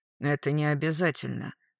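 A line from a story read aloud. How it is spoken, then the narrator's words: Dry. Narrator (Russian): сухо сказал завхоз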